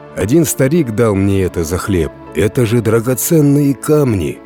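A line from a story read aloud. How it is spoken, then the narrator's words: Peasant exclaiming. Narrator (Russian): воскликнул крестьянин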